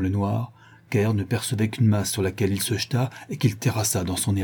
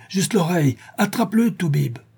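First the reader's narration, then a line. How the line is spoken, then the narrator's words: Shout. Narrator (French): cria-t-il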